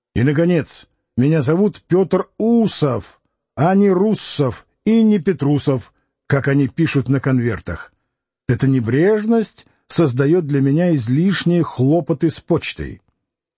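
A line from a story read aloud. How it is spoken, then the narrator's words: Stern. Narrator (Russian): закончил строго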